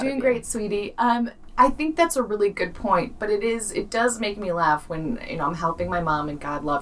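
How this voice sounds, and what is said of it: Usual voice. Nothing is said of it.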